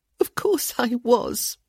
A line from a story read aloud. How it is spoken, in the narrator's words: she returned, no longer trying to hide the choking sound in her voice